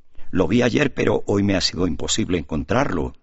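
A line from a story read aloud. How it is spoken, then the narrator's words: Plain. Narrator (Spanish): dijo Alejo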